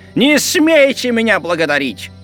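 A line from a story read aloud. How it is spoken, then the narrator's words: Shout. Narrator (Russian): крикнул сквайр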